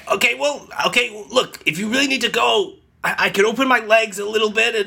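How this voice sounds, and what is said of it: Hoarse, strained voice. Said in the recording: “why does your voice sound so much more hoarse?”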